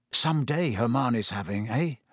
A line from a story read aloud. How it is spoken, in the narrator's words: muttered, looking awed